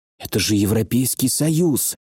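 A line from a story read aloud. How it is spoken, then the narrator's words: Weak muttering. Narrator (Russian): пробормотал Феликс, теряя последние силы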